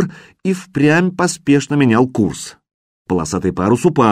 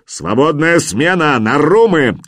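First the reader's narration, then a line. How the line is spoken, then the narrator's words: Shouting. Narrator (Russian): крикнул Хрёрок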